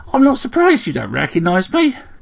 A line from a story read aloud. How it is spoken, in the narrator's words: chirped the sparrow